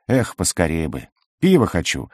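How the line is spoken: Sigh. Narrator (Russian): вздохнул Делер

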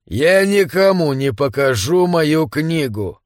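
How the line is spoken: Eerily flat voice. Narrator (Russian): Странным, до жути ровным голосом Дунстон сказал

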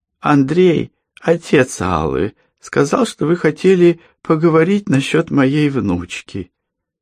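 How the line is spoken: Timid. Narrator (Russian): робко сказала

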